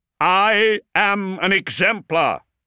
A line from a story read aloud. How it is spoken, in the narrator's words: Zerberin shouted